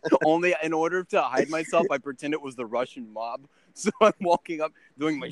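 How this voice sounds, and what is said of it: Usual voice. Nothing is said of it.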